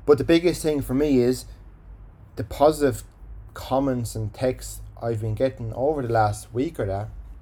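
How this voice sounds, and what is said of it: Irish accent. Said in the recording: “waffle on in my Irish accent”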